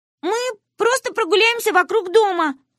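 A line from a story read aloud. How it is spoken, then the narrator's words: Shouted from the doorway. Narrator (Russian): крикнули мы с порога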